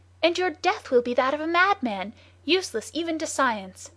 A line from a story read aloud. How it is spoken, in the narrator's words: he cried